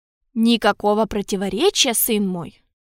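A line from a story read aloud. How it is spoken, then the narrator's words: Calm reply. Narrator (Russian): спокойно ответил кардинал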